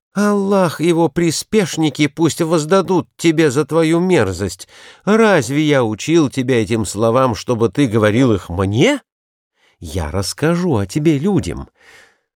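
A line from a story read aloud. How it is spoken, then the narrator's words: Exclaiming. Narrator (Russian): воскликнул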